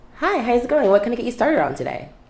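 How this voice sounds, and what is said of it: Upbeat fake customer service voice. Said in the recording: “my customer service voice is a completely different person ... fake”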